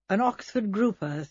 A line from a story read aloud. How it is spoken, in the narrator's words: said Melchett